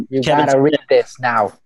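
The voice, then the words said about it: Put-on Boston accent. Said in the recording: “doing it a Boston accent.”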